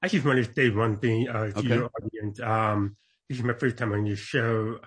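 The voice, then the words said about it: Deaf accent. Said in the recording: “I was born deaf, so I do have a deaf accent.”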